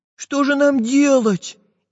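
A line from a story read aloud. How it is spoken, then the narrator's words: Frightened question. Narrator (Russian): испуганно спросил Прутик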